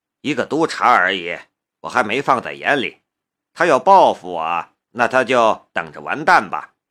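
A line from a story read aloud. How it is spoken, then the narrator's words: Cool, indifferent. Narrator (Chinese): 夏雷淡淡的道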